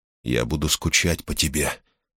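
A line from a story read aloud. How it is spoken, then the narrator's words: Very quiet. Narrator (Russian): сказал Брут совсем тихо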